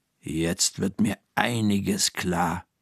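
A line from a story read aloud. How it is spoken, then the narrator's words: Murmured. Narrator (German): murmelt Frau Krüger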